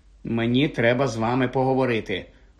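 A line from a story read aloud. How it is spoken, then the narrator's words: Mutter. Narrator (Ukrainian): пробурмотів Гаррі Ронові й Герміоні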